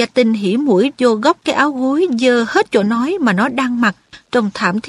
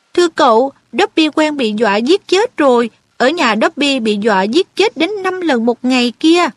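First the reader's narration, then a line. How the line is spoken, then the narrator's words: Weak smiling. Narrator (Vietnamese): Dobby mỉm cười yếu ớt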